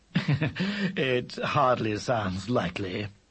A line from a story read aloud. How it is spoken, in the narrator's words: he said dryly